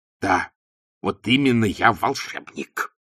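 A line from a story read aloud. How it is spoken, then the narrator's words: Hissing. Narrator (Russian): прошипел Ринсвинд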